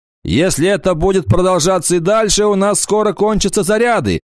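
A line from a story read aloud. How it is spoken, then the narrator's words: Shouted. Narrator (Russian): прокричал он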